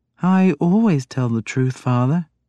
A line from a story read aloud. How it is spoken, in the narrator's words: she said in a small voice